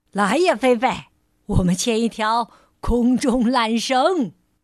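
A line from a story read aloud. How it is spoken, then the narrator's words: Calling out. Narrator (Chinese): 冲着小猫喊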